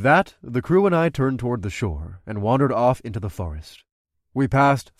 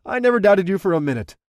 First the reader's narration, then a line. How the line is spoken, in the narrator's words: I laughed